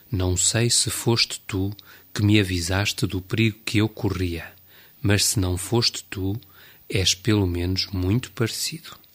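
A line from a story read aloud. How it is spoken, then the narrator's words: Murmuring. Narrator (Portuguese): murmurando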